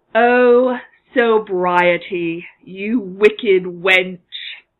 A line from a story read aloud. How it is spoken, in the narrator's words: Draco says mournfully